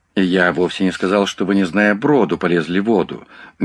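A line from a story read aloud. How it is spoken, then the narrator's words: Gentle remark. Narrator (Russian): мягко заметил Крессел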